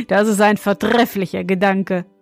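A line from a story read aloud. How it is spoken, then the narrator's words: Laughing young man. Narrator (German): meinte der junge König und lachte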